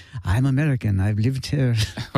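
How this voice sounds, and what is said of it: Put-on Irish accent. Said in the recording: “What accent is that? ... It's Irish.”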